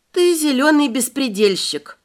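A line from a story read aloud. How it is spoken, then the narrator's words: Weary. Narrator (Russian): Устало покачала я головой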